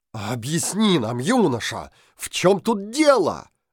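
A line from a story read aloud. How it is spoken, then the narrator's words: Two voices exclaiming together. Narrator (Russian): В один голос воскликнули царь и судья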